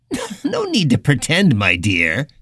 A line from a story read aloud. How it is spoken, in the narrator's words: the man said with a little laugh